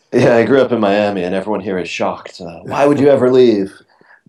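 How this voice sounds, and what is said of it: Non-British accent. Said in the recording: “I'm guessing by the accent you're not from the UK.”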